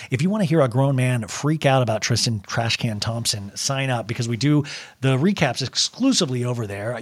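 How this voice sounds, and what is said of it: Slightly hoarse voice. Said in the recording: “My voice is a little hoarse because I've been talking all day”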